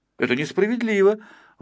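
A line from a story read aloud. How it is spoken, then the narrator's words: Exclaimed. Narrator (Russian): воскликнул Пончик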